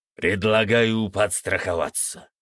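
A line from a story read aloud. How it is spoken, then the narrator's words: Deep bass voice. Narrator (Russian): пробасил владыка Фенрис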